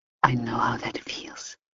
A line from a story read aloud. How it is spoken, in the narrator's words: she whispered back